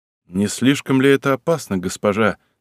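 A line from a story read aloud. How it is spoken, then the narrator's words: Plain question. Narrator (Russian): спросил Щукин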